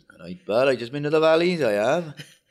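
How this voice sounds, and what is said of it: Put-on Welsh accent. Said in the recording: “if I did it in a Welsh accent, ... That's more like him.”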